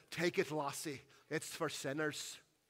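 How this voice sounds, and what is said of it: Scottish accent. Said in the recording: “through an incredible Scottish accent says”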